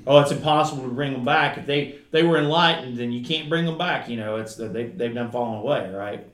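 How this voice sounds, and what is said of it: Southeastern Kentucky Appalachian accent. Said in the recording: “That's my Kentucky. ... Where I'm from southeastern Kentucky, if you can't ever tell by my accent. ... in the mountains of southeastern Kentucky, in Appalachia”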